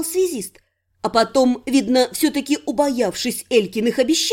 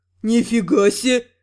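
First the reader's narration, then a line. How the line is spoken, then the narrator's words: Breathless exhale. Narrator (Russian): выдохнул вор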